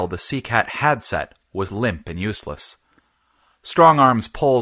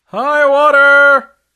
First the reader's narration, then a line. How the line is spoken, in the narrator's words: called out someone from near the bow of the Sea Cat